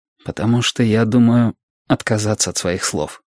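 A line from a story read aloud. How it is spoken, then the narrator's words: Quiet reply. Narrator (Russian): тихо ответил Глессон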